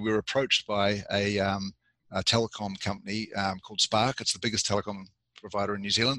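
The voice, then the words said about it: Strange New Zealand-influenced accent. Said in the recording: “We started off the business in New Zealand, and that explains why I've got the strange accent that you can hear.”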